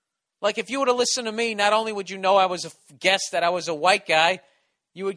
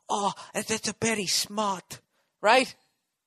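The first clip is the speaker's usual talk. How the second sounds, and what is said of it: Exaggerated put-on Asian accent. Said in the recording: “my hacky fucking Asian offensive accent”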